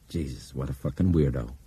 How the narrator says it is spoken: Brian muttered

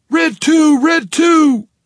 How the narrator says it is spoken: Coach shouted

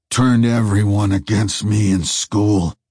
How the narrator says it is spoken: snarled the faceless man

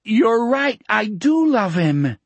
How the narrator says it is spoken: Donnie shouted triumphantly

